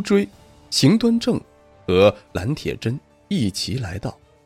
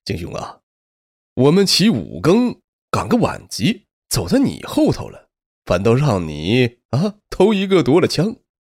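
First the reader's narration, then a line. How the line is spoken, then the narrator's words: Laughing. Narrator (Chinese): 龙无追 笑着说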